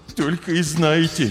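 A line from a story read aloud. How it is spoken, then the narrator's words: Heavy sigh. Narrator (Russian): тяжело вздохнул хомяк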